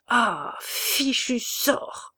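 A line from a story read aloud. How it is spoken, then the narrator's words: Stammering. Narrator (French): bégaya Jean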